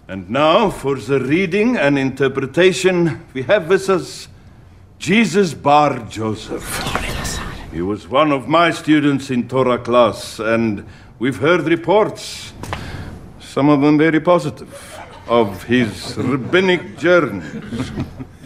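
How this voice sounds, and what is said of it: Put-on accent from The Chosen. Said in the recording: “the Chosen accent. So everybody in the Chosen series is putting on a bit of an accent.”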